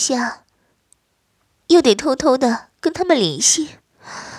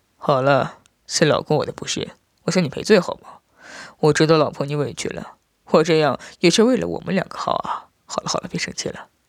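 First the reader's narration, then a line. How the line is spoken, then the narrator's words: Soft voice. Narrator (Chinese): 轻声道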